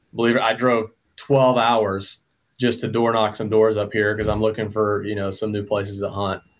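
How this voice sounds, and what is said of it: Southern US Georgia accent. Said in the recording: “you can probably tell by my voice, I'm from Georgia”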